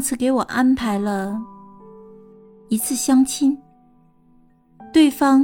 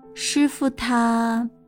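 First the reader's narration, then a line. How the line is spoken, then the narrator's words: Slow, unhurried speech. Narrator (Chinese): 君卓缓缓地说道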